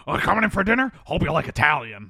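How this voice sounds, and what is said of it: Good Beetlejuice impression. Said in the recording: “you do a really good Beetlejuice impression.”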